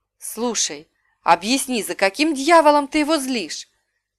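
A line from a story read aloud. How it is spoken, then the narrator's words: Whisper in ear. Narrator (Russian): прошептал мне на ухо Лив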